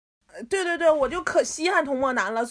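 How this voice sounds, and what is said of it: Authentic-sounding put-on Northeastern Chinese dialect. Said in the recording (Chinese): “展示一下他就是他的方言 ... 稀罕说的很地道 ... 用东北话”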